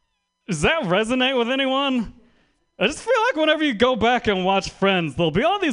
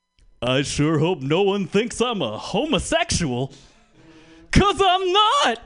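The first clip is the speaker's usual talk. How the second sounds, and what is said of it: Impression of a 90s sitcom man. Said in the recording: “my impression of every man on every 90s sitcom”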